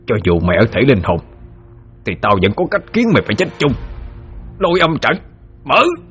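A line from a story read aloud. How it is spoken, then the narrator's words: Snarling through bared teeth. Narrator (Vietnamese): Hắn nhe hàm răng ra mà gằn giọng nói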